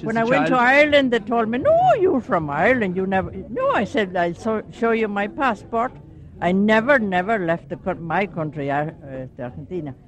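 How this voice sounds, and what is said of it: Irish accent, brogue. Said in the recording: “You have the Irish accent ... they said I had the same brogue and everything”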